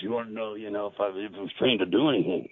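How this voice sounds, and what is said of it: Gravelly imitated voice. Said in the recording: “in his grovel voice”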